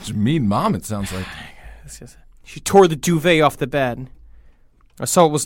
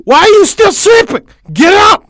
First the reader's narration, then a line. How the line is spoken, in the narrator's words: she shrieked